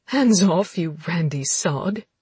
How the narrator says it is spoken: she giggled

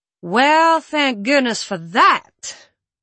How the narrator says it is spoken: Maya drawls

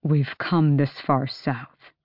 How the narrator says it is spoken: Rowan said at last, his voice low

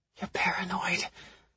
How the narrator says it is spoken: I murmur to myself

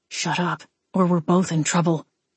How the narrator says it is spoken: Wade whispered

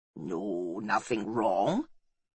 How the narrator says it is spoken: he grunted, feeling himself hemmed in by the youngsters

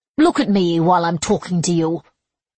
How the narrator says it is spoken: Bianca snapped

